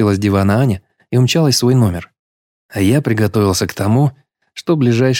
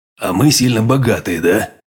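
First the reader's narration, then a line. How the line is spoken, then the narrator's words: Muttered under breath. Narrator (Russian): себе под нос пробурчал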